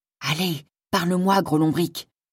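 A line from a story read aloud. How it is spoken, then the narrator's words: Murmured. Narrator (French): murmurait-elle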